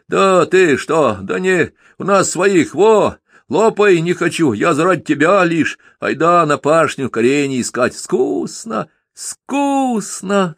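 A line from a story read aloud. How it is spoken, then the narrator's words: Shouting. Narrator (Russian): закричал Донька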